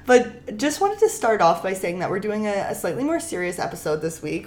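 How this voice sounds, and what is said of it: Rough, sick-sounding voice. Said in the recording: “I'm sorry I sound like this. I'm a little sick, so if I sound a little rough,”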